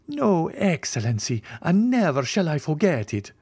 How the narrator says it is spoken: returned Peppino, with an accent of profound gratitude

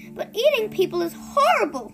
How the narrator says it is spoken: Sophie cried

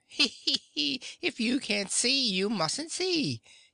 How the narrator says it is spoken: he answered with a laugh

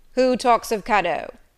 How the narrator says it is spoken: said he gruffly

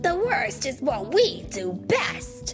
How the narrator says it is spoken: exclaimed Rocksteady

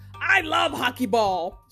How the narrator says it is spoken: she shouts

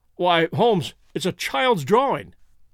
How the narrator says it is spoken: I cried

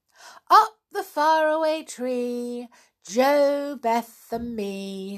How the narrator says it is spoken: sang Franny loudly

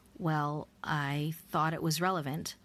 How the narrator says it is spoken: The man stuttered

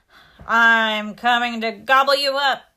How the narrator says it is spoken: shouted the troll

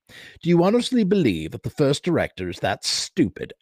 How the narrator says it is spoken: Ashton sneered

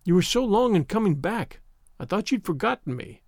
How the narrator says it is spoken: cried Avery

